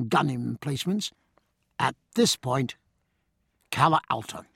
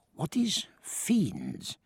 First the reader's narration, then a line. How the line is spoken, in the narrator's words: whispered Valdez in Stephen's ear